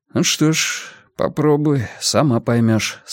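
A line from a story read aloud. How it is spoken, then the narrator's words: Calm. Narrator (Russian): спокойно предложил комиссар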